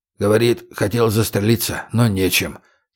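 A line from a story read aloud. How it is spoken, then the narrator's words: Quiet explanation. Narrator (Russian): тихонько пояснил Виктор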